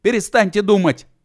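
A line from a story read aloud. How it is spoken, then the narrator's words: Old man shouting. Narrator (Russian): закричал старичок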